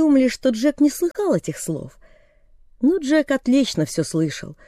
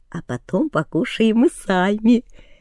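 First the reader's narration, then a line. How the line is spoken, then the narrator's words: Laughing whisper. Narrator (Russian): засмеялись и шепотом сказали друг дружке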